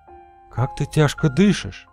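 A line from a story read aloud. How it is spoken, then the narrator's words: Whispered. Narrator (Russian): прошептала она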